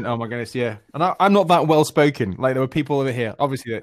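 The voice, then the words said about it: English accent. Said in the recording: “you have just the greatest accent ... someone across the pond ... from England”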